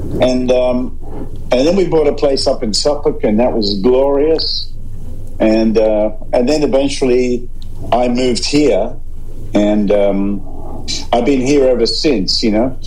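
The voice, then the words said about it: Australian accent. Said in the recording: “you still talk Australian ... Very much so. Well, I'm an Aussie, through and through”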